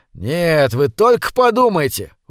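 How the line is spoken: Excited exclamation. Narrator (Russian): возбужденно воскликнул Эгерман

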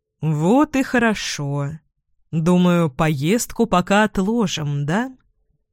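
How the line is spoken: Seemingly soft tone. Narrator (Russian): Продолжает муж тем же вроде как мягким тоном

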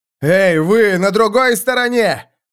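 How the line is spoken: Shouting. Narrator (Russian): крикнул Феликс

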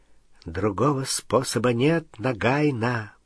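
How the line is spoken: Whisper. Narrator (Russian): прошептал он

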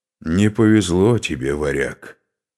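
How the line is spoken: Through gritted teeth. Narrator (Russian): процедил Скарпи

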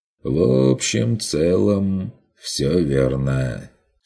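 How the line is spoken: Lazy agreement. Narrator (Russian): согласился Бес, лениво качая стаканом в руке

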